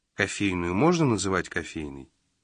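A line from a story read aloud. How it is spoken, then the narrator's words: Hopeless sigh. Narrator (Russian): Джина безнадежно вздохнул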